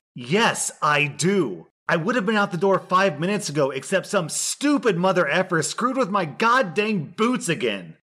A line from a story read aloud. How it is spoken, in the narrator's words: yelled